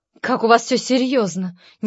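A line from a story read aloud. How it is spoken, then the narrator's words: Displeased mutter. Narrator (Russian): недовольно пробормотала Варя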